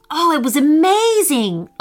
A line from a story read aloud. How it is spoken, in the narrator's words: Owen exclaimed with joy